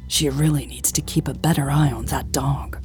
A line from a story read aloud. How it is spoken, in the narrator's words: she muttered